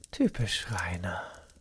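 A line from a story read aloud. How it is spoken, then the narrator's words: Ironic murmur. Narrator (German): murmelte sie und lächelte ironisch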